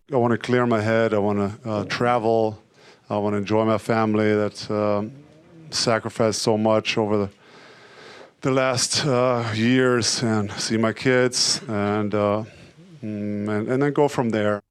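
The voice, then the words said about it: German learner's English, some American features. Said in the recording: “the accent hasn't changed too much. I could still pick out a number of features of learners' English. And he says American things like, I wanna. ... I don't hear anything specifically Texan.”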